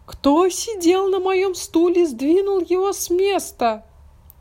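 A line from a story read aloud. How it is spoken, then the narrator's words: Child squeaking. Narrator (Russian): Мишутка пропищал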